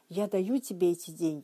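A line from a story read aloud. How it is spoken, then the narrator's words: Plain. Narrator (Russian): сказал он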